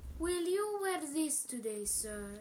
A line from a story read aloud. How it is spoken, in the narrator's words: he asked quietly